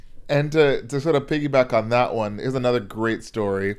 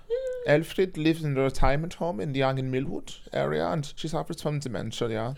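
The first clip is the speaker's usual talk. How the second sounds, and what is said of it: Put-on German accent. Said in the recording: “I'll read this in my best German accent.”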